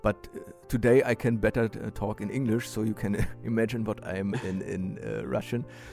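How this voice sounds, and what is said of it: East German accent in English. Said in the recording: “you still can hear a very special accent ... East Germans”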